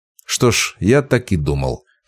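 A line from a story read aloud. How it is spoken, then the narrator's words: Calm. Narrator (Russian): спокойно продолжил Романов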